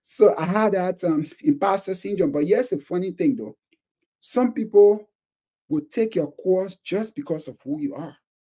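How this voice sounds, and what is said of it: Thick African accent. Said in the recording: “I'm an African immigrant. Who will want to listen to me with my thick accent?”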